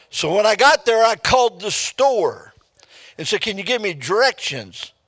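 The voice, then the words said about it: Speaks with a regional accent. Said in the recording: “she don't talk with my accent”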